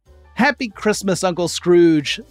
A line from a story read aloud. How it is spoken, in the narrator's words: the fool called out